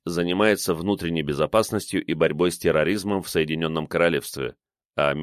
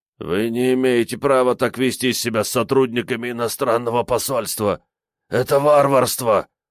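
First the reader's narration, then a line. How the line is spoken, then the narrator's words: Hoarse wheeze. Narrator (Russian): прохрипел арестованный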